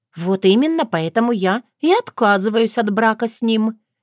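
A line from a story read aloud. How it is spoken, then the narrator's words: Cheerful, smiling. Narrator (Russian): весело улыбнулась свекрови Таня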